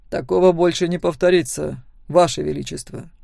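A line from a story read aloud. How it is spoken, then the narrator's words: Calm reply. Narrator (Russian): спокойно ответил Себастьян Торн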